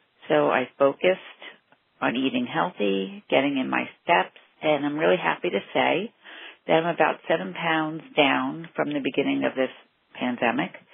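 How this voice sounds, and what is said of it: East Coast New York accent. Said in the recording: “I love her East Coast accent... she's from New York or Brooklyn or Long Island or somewhere around there. I, I can feel it.”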